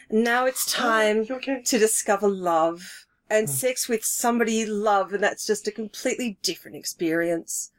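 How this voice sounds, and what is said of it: Voice faltering with emotion. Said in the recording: “I'm losing my voice. I'm so emotional.”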